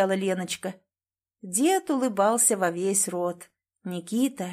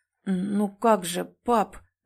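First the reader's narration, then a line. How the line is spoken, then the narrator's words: Stammering speech. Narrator (Russian): запинаясь, проговорил Никита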